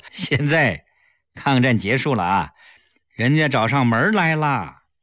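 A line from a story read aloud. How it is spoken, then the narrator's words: Laughing. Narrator (Chinese): 齐长鹏笑着说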